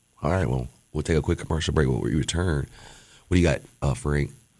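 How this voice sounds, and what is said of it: Hoarse, strained voice. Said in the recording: “I'm losing my voice... you're screaming and yelling”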